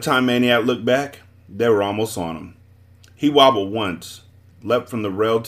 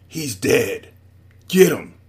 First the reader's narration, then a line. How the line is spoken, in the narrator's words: He snarled